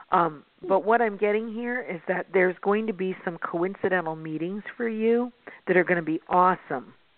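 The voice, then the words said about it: Hoarse, scratchy throat. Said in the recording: “I have a frog in my throat... I really do have a frog in my throat”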